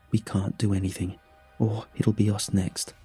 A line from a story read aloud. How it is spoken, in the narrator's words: whispered